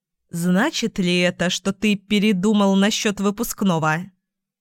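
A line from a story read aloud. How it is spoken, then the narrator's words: Plain. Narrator (Russian): спросила я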